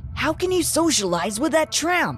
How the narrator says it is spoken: Nick asked angrily

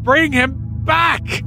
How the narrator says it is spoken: cried the old woman

